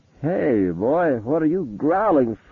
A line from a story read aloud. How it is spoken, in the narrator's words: Gary said, and then faltered